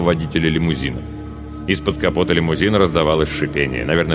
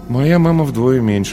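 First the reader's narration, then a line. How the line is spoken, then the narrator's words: Sighing. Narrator (Russian): вздохнул Паша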